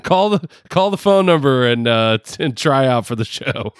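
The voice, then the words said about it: Put-on New York accent. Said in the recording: “this freaking New York accent”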